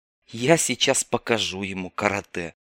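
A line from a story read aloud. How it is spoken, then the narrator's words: Angry hiss. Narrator (Russian): зло прошипел скаут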